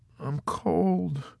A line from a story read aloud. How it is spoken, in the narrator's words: Snowden said again in a frail, childlike voice